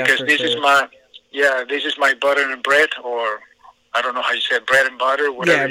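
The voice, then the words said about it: Non-native English accent. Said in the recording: “my accent, this is my second language”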